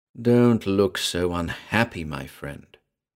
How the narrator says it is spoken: he purred

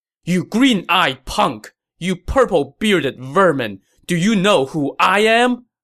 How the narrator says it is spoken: Lu Meng shouted

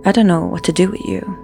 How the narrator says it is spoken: calmly said

